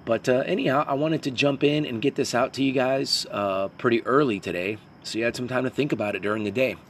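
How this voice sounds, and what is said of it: Raspy voice. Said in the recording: “Pardon my raspy voice ... I don't know if I've got a little bit of a cold or it's allergies”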